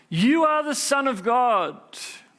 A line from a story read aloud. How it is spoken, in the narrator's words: demons came out and many people shouting